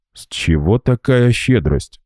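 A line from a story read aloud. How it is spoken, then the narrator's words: Grumbled. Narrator (Russian): буркнул Гера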